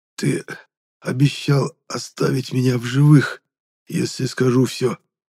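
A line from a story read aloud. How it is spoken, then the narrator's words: Hoarse, unrecognizable voice. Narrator (Russian): прохрипел я, не узнавая собственный голос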